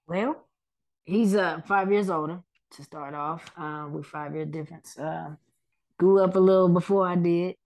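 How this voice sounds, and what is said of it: Urban Oklahoma City accent. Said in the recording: “we got the city hood accent”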